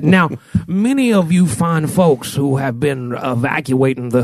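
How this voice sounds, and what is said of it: Colonel Sanders-style Southern drawl. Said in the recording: “he had an accent. I couldn't believe it. ... It sounded like a combination of Colonel Sanders and Foghorn Leghorn. ... he was like, now I do declare.”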